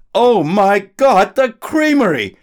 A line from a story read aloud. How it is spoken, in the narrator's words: he yelled